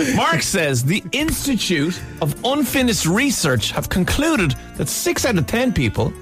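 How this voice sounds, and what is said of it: Usual voice. Nothing is said of it.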